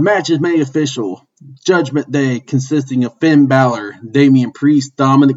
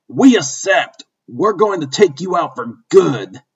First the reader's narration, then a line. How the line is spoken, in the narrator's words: angry Finn Balor shouts back